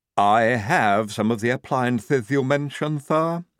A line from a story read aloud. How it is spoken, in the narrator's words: said Igorina stiffly